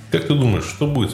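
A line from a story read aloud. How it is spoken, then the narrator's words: Plain. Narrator (Russian): спросил он меня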